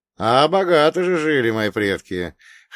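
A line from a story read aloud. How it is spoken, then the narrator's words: Amused snort. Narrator (Russian): хмыкнул я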